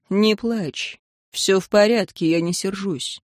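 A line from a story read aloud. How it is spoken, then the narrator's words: Calm. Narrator (Russian): император спокойно сказал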